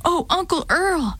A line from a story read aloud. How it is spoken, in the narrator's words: I panted in a whisper